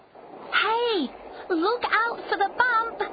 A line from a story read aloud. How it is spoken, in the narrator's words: she shouted